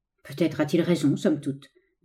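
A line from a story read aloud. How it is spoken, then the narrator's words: Old scholar murmuring. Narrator (French): murmura le vieux savant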